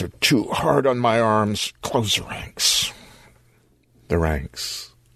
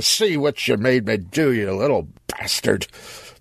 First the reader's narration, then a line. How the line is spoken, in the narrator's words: he growled